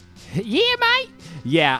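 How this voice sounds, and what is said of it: Australian accent impression. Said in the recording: “your Australian accent is just the ... That's the whole impression.”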